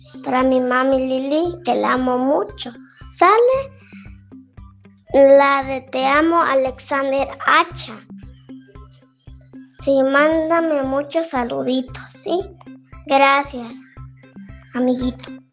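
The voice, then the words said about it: Clear, pretty young child's voice. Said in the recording (Spanish): “¡Guarden esa voz! ¡Qué bonita está! ... voz de niño ... Bien clarito que habla ... Pero habla bien claro. ... Bien bonita su voz.”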